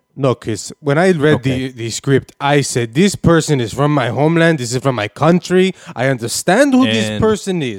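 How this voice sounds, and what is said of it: South American accent. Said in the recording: “You have a South American accent.”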